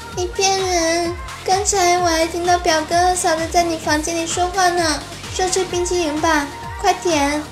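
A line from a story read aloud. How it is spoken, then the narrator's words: Crying while speaking. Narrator (Chinese): 妹妹当时就哭了，边哭边说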